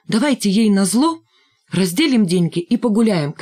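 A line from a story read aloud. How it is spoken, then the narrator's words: Shouted. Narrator (Russian): крикнул Валька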